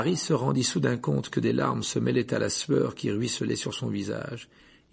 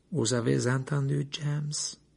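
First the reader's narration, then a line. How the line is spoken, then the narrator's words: Strange voice. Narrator (French): dit Lupin d'une voix étrange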